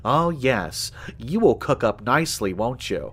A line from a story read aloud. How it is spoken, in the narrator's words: He let out a quiet chuckle